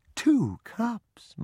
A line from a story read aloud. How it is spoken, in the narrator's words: Mama exclaimed